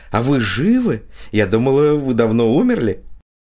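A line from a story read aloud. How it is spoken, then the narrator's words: Exclaimed with naive childlike delight. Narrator (Russian): с наивным детским восторгом воскликнула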